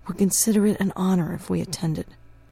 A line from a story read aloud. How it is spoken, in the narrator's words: said in his soft voice